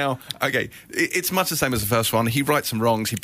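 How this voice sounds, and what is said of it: Usual voice. Nothing is said of it.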